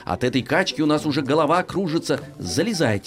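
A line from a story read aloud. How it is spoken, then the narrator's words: Plain. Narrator (Russian): сказала кошка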